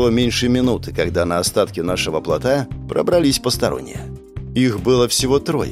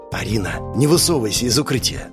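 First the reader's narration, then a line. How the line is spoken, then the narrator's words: Whispered. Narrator (Russian): прошептал я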